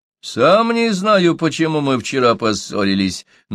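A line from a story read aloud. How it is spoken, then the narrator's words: Mocking reply. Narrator (Russian): насмешливо отозвался Чумбока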